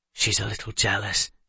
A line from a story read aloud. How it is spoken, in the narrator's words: Bracken whispered